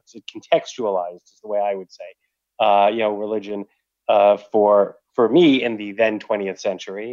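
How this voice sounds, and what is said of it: New York area accent. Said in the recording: “I'm assuming the New York area, because your accent sounds kind of like my accent. ... I was thinking it was a typical Jewish sort of New York area”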